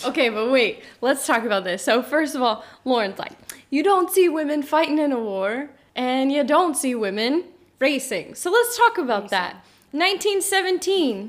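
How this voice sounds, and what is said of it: Teacher voice. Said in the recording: “That was the most teacher thing ever. Let's talk about that. You even turned your teacher voice on.”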